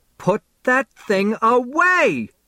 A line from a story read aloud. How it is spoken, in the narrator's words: Mom shrieks